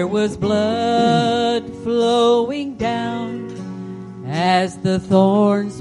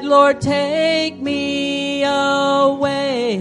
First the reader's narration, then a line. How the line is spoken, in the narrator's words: I cried